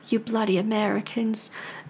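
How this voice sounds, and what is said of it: Weak put-on British accent. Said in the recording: “That's not going to be my best British accent”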